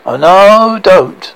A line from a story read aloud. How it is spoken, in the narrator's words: Spearman shouted